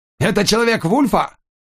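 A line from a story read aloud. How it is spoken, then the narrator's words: Shouting. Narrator (Russian): Андерсон крикнул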